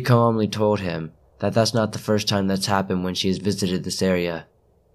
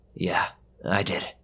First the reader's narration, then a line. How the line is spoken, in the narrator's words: Ray quietly responded